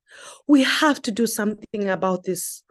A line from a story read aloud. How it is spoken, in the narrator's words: Komani exclaimed